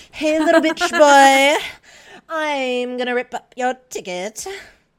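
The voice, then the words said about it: Impression of Gabby. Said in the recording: “that Gabby impression”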